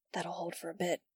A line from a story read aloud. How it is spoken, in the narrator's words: he whispered back